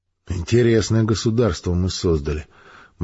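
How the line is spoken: Gloomy. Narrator (Russian): мрачно произнес четвертый

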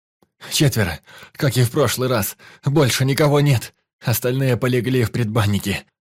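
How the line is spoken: Pained groan. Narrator (Russian): простонал раненый

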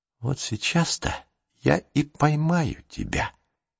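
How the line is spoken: Whisper. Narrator (Russian): прошептал

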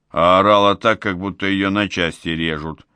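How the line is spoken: Disappointed grumble. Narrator (Russian): разочарованно проворчал Кузьма

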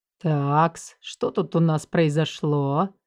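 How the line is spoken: Purring. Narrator (Russian): мурлыкнул он

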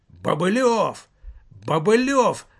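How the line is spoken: Shouting. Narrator (Russian): закричал он

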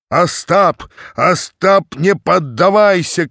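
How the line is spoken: Shouted. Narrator (Russian): кричал Тарас

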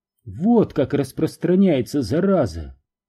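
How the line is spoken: Sighing. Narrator (Russian): вздохнув, сказала она

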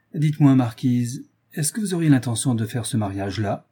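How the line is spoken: Sly old man. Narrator (French): dit le vieux gentilhomme d'un ton futé

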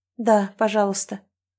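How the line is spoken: Tired exhale. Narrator (Russian): устало выдыхает

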